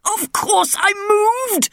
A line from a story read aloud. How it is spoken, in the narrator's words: roared the king